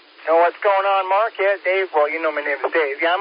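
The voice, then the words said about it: Alabama Southern drawl. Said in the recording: “That Alabama draw set sounds like Dave ... with that Alabama drawl, you sound like Dave”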